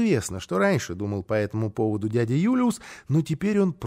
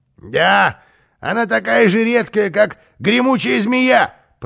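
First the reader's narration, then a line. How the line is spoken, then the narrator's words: Grumble. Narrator (Russian): проворчал Карлсон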